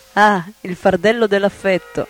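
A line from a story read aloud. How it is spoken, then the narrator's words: Laughing. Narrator (Italian): Prabhupada ridendo le disse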